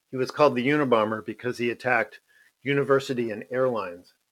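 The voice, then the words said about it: Hoarse, strained voice with throat-clearing. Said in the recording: “I'm losing my voice here.”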